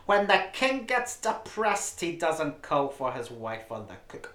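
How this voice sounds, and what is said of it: Jewish housewife character voice. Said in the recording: “do the voice ... just do your usual Jewish housewife voice”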